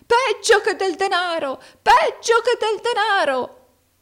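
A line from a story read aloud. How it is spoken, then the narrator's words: Old man shouting. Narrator (Italian): gridò il vecchio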